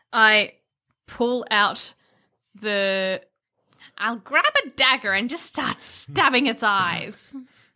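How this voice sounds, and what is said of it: Old woman crone character voice. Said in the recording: “you do the character voice for talking about like your actions ... I've started to see you as a bit of an old woman ... your character's got like a bit of a crone voice”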